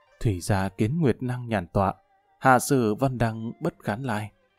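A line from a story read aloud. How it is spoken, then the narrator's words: Deep sighing. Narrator (Vietnamese): thở dài thật sâu nói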